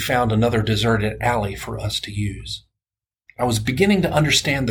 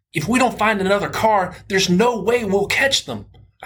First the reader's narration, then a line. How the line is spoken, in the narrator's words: I shouted ahead to Aaron